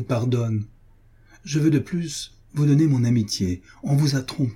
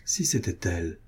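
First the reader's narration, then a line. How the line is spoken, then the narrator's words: Murmuring. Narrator (French): murmura-t-elle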